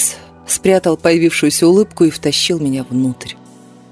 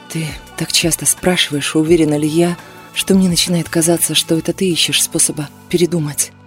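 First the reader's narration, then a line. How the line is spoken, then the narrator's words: Angry whisper. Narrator (Russian): Я сердито прошептала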